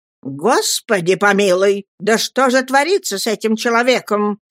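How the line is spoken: Irritated exclamation. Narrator (Russian): с раздражением воскликнула тетушка

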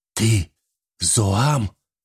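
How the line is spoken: Strained, forced out. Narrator (Russian): только и выдавил он из себя

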